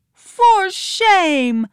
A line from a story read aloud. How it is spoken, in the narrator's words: Nancy yelled